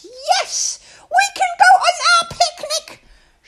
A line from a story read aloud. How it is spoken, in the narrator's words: she shrieked